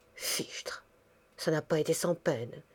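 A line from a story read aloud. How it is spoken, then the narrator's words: Murmuring. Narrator (French): murmura Madame Gabin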